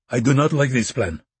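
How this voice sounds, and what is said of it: Thick foreign accent. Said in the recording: “His accent was thick but understandable.”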